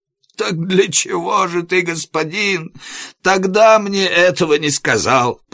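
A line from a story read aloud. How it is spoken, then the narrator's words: Groaning. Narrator (Russian): простонал Иаков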